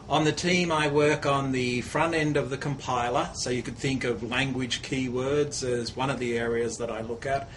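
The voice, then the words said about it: Australian accent. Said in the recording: “As you can tell from my accent, I'm not from around these parts. I'm originally from Melbourne, Australia.”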